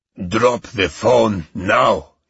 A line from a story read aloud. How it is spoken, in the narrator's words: he barked